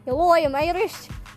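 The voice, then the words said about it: Weak attempt at Irish accent. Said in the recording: “do your Irish accent. ... That wasn't very Irish.”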